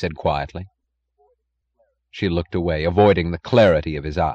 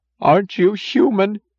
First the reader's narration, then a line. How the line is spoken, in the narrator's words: Her voice grew shrill with anger